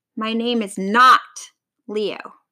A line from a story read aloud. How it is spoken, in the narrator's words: snarled the miserable lion